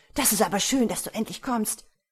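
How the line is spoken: Joyful call. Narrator (German): rief freudig

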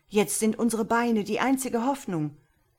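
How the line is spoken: Called out. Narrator (German): rief Sasembeh

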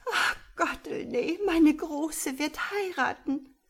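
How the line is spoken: Repeated sobbing. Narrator (German): schluchzte sie immer wieder

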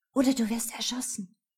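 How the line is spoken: Whisper. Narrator (German): flüstere

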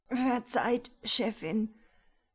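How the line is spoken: Secretary whimpering. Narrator (German): wimmerte der Sekretär

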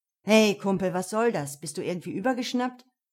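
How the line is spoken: Growled. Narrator (German): knurrte Luke

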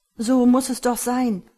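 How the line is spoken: Stammering man. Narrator (German): stammelte er

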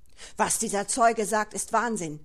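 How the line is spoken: Shouted. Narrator (German): schrie der Verteidiger

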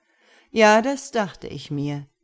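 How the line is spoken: Angel's mocking voice. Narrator (German): sagte der Engel spöttisch

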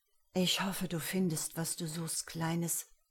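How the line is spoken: Whispered. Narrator (German): flüsterte

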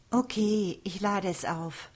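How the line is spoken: Sigh. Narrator (German): seufzte sie

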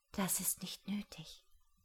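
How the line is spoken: Breathy whisper. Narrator (German): hauchte Ellen

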